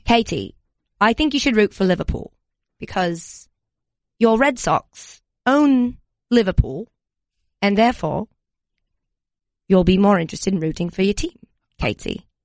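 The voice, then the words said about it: Put-on British accent. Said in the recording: “When did I get a British accent? ... I obtained a British accent ... Did I lose it halfway through? ... I could listen to an accent like that all day long.”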